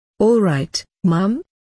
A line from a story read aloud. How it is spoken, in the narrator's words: asked